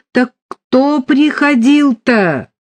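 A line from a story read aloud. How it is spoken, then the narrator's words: Loud shout. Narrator (Russian): громко крикнул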